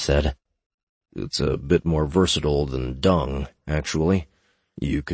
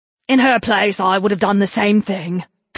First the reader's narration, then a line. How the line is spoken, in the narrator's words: Kes blurted out